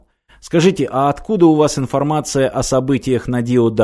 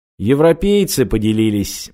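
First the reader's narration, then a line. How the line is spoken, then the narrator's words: Gloomy reply. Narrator (Russian): мрачно ответил чекист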